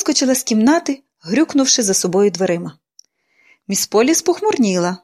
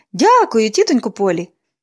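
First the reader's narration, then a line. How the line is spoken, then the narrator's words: Cheerful exclamation. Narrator (Ukrainian): Поліанна весело вигукнула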